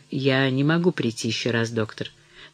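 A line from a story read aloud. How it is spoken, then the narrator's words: Quiet. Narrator (Russian): Она сказала тихо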